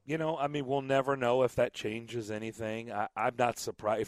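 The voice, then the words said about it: Slightly raspy, hoarse voice. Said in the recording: “I apologize for my voice. I did a lot of yelling at baseball games this weekend, so I'm a little raspy. ... I barely have a voice.”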